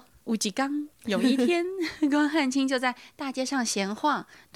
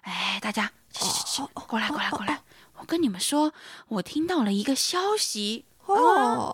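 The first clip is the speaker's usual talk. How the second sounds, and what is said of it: Lowered, hushed voice. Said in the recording (Chinese): “压低自己的声音说”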